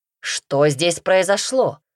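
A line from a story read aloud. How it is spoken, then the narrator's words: Sudden bark. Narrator (Russian): рявкнул сходу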